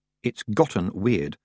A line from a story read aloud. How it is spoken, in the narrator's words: said her third thoughts quietly